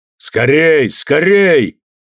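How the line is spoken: Shouting. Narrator (Russian): кричал Орлан

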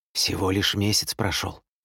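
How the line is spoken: Whispered. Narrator (Russian): шептала

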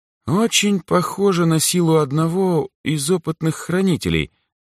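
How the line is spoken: Thoughtful, hesitant. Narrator (Russian): задумчиво произнесла неуверенно Азуми

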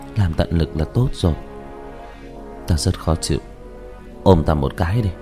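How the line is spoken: Anxious sigh. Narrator (Vietnamese): Như Lãnh Ngọc tâm ý hồi hộp, thở dài nói

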